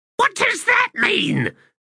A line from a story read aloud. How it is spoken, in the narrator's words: Faint hissed in exasperation